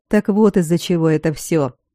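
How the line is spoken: Scoffing snort. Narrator (Russian): хмыкнул Аластор

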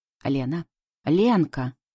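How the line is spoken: Uneven shouting from street. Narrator (Russian): орут на улице неровным голосом

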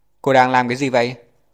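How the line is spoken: Impatient yell. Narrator (Vietnamese): Phẫu thuật viên chính Dương Thành đợi 2 giây thì không nhịn nổi nữa, hét lên

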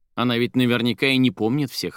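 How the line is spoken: Laughing. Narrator (Russian): рассмеялась Соня

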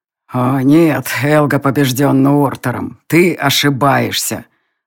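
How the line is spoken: Hoarse male, deliberately calm. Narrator (Russian): раздался хриплый мужской голос, говоривший нарочито ровным и спокойным тоном

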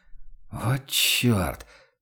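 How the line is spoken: Whisper. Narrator (Russian): проронил Ваналин шепотом

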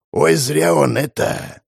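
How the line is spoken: Man whispering. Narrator (Russian): прошептал мужик, советник какого-то князя

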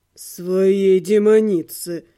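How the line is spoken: Moaning. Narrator (Russian): простонал блондин

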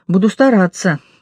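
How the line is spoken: Sighing. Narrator (Russian): Машка вздохнула

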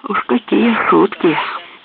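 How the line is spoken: Hiss. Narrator (Russian): прошипел Уоррен

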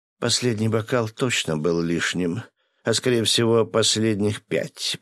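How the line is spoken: Groaning. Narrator (Russian): простонала девушка

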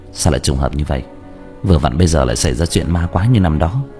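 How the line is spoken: Dazed mutter. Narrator (Vietnamese): Tạ Vũ Tình ngẩn ra, lẩm bẩm

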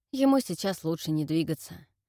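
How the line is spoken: Grim smirking explanation. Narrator (Russian): пояснил Натаниэль, мрачно усмехнувшись

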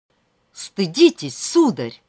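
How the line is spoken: Indignant shout. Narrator (Russian): выкрикнула Вера в раскрасневшееся лицо привратника

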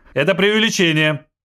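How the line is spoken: Shouted. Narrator (Russian): крикнул заместитель директора

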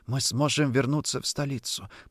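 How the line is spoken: Whisper. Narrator (Russian): прошептала

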